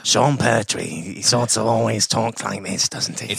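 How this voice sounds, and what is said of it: Monotone, gravelly imitation of an actor. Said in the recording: “That's a much better Sean Pertwee. ... It's quite monotone. ... Gravelly.”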